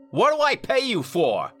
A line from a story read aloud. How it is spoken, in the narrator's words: snapped